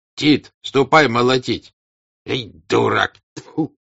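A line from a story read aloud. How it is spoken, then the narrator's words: Old man, angry. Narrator (Russian): сердито плюнув, сказал старик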